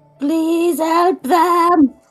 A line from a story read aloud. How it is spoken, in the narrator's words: She's just shouting in the back